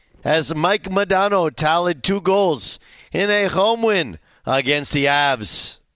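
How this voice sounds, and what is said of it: Poor put-on French-Canadian accent. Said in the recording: “my terrible French-Canadian accent”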